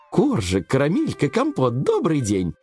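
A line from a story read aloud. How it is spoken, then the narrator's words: Cheerful greeting. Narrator (Russian): весело поздоровалась она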